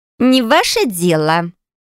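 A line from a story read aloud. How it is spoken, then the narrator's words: Young woman's scoffing snort. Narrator (Russian): хмыкнула девушка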